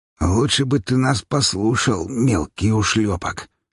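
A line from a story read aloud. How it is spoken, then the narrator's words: Hoarse, strained, injured man. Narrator (Russian): сипло выдавил тот, которому я разбил лицо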